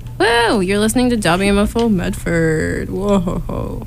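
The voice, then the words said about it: Announcer-style radio voice. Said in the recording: “That's my radio voice.”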